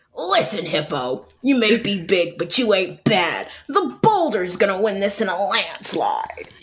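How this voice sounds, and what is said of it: Performed cartoon character voice. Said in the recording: “your best impression ... of the boulder ... nailed it! That was gorgeous.”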